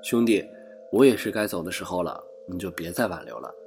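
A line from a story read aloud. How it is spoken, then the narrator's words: Wistful, meaningful. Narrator (Chinese): 爷爷像是感叹，但话中有话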